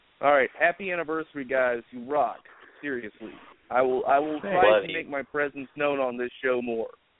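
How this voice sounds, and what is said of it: Worn-out, sick-sounding voice. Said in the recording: “my voice is about shot. I've been, like I said, I've been sick all week.”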